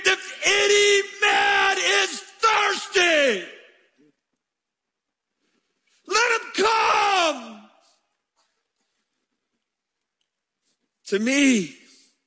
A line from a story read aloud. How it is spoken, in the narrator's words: he stood up and screamed